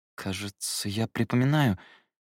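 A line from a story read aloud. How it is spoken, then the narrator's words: Uncertain. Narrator (Russian): неуверенно произнес я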